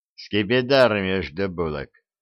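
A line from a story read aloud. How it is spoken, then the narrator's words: Gloomy joke. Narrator (Russian): мрачно отшутился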